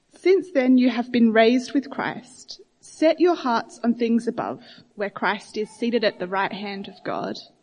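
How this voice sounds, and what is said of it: Voice strained by a cold. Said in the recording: “excuse my voice. It doesn't like the cold weather.”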